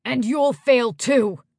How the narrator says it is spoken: Yoen snapped

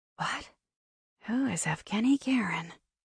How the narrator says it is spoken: whispered

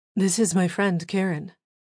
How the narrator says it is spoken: says

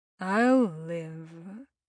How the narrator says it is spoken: Simeon said with a heavy sigh

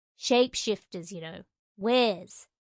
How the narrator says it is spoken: growled

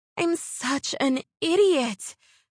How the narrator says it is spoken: Carla exclaimed

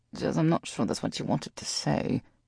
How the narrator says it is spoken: Roger muttered

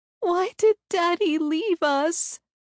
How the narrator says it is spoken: She wailed

